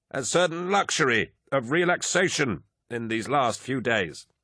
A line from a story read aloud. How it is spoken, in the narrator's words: Malagurst began, his voice hard but brittle with effort